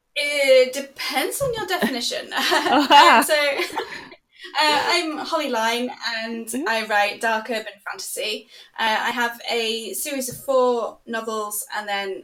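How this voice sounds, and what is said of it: English accent. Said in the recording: “I love the accent. I do miss it ... I'd spent a year in England. I spent a year in Manchester ... I kind of do miss the accent”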